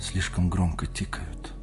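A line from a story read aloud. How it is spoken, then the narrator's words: Whispered. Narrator (Russian): прошептала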